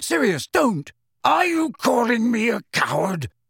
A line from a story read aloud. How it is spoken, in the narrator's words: roared Sirius